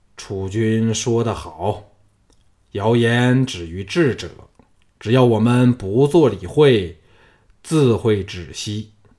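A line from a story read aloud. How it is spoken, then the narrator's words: Calm, deep voice. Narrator (Chinese): 吕不韦也恢复冷静，沉声说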